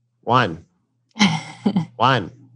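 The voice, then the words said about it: Imitates a computer voice reading numbers. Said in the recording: “A very good impression.”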